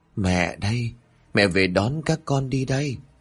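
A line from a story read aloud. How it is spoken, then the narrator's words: Hoarse voice. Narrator (Vietnamese): cất giọng khàn khàn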